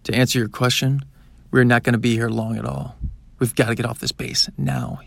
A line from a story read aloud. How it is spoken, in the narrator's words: exclaimed